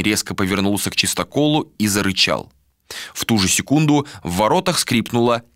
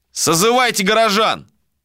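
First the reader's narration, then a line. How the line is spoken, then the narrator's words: Shouted. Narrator (Russian): крикнул брат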